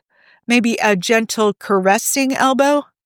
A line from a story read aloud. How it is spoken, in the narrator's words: Steve laughed